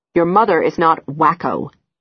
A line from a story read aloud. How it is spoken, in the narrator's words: my father says sternly